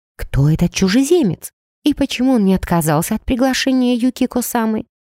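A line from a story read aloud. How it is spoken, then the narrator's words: Whisper. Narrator (Russian): успела шепнуть мне Аоки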